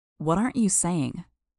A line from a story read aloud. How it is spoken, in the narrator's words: She sighed